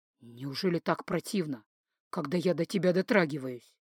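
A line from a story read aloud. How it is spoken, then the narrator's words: Quiet, through gritted teeth. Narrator (Russian): Дан … сквозь зубы тихо спросил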